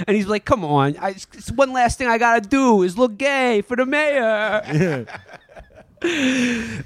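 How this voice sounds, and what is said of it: Put-on Boston / East Coast accent. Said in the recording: “I hope you guys are enjoying my Boston accent ... you were doing the New York guy, right? Because that's what you sounded like.”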